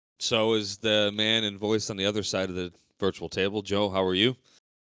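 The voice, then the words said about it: Deeper than normal voice. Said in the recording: “My voice is back. Still a little deeper than normal... that deep, sultry voice”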